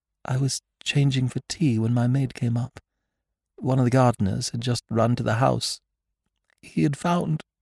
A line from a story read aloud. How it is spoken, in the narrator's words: Her voice trailed away